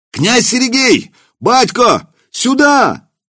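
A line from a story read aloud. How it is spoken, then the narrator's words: Shouting. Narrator (Russian): кричали во дворе кто-то из дружинных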